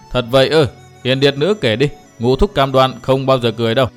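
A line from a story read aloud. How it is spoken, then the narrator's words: Hearty laughing. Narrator (Vietnamese): Phác Ma Thiên ha hả cười to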